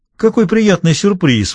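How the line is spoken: Exclamation. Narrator (Russian): воскликнул Росс

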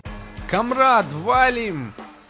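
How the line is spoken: Shout. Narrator (Russian): закричал

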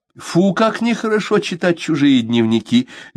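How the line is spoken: Light laugh. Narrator (Russian): Легко засмеялась

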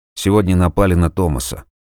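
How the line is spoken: Tired. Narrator (Russian): устало ответил тот

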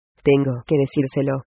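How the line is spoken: Murmur. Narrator (Spanish): murmuró Fran

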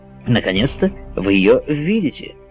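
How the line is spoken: Plain. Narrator (Russian): сказал ему капитан

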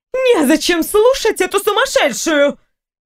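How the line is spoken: Outcry. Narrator (Russian): Мессина Хеления не выкрикнула

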